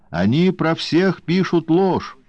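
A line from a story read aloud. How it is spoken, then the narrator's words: Yelled. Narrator (Russian): заорал Скотт Кинг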